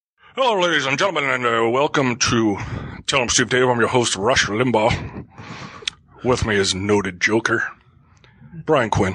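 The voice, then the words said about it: Imitates another person's voice. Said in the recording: “that horrible impression.”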